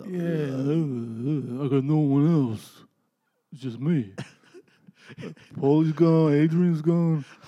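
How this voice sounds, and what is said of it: Rocky Balboa character impression. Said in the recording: “Your Rocky Balboa impersonation is amazing. ... It's exactly what that sounded like. It was spot on.”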